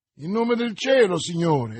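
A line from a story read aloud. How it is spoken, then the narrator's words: Exclaiming. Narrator (Italian): esclamò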